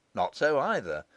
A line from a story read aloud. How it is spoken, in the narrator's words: he resumed more cheerfully